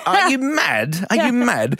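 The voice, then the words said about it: Imitates another person's voice. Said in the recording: “in your best Jeremy Clarkson voice”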